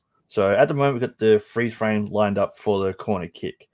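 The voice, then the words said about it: Australian accent. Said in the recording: “you have the Aussie accent, so it'd be nicer to hear”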